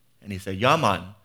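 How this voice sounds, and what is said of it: Weak put-on Jamaican accent. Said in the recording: “my Jamaican accent isn't very good.”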